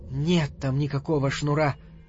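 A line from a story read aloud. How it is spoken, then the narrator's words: Barely audible. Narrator (Russian): сказала чуть слышно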